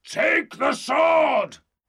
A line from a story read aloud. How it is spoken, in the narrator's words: Grimaldus roared